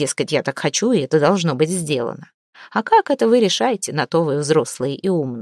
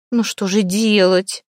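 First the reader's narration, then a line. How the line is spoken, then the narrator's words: Offended question. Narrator (Russian): обиженно спросила Хлейна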